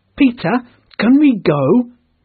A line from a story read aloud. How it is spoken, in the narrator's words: all cried